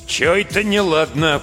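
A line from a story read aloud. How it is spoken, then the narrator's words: Deep bass voice. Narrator (Russian): пробасил Прошка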